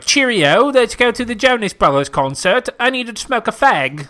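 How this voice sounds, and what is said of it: Put-on British accent. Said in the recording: “Do you like my British accent?”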